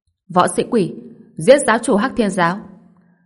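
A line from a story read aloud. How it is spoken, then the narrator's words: Cold. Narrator (Vietnamese): Giáo chủ Thiên Quỷ giáo lạnh lùng nói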